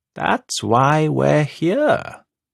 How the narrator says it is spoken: Coel says, in an appallingly reasonable tone

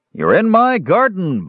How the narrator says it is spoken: boomed an angry male voice

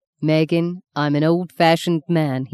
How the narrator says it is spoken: he said

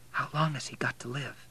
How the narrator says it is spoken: asked Kate in a whisper

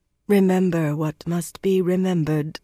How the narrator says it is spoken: Anaya murmured for a final time

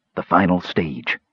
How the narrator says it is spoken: Wasteland whispered

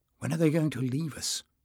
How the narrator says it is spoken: Jasmine murmured

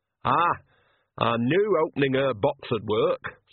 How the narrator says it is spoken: said Nanny happily

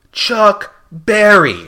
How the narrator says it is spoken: shouted Red

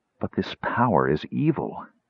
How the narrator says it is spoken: Crisania said, regarding Raistlin earnestly

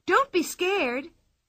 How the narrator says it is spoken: cried Pippi

